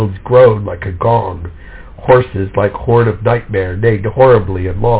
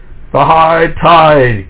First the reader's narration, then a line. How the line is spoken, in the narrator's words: King Alfred cried